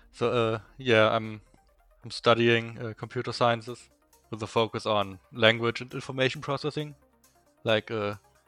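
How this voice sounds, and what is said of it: Strong German accent. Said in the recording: “you can probably hear my very strong German accent.”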